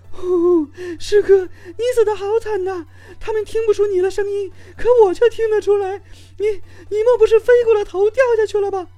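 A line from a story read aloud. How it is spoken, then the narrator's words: Crying. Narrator (Chinese): 那位加油的美眉哭泣道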